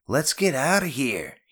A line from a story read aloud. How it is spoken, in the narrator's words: he yelled